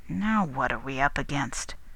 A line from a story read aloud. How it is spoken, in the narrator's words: grumbled O'Keefe